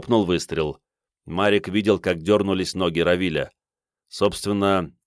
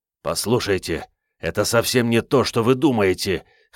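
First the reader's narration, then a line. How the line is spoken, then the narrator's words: Hoarse. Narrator (Russian): хрипло сказал Сашка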